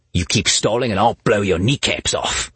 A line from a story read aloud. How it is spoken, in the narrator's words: growled